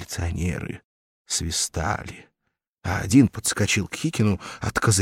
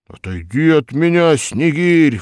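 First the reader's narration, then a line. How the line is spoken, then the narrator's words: Roaring in sleep. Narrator (Russian): взревел во сне Хикин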